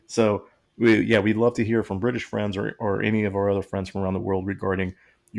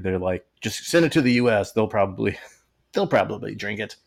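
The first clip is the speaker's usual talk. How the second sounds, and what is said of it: Put-on British accent. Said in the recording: “It's my British accent.”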